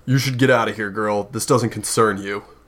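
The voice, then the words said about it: Deep character voice. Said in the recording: “you hear, like, this deep voice kind of be like”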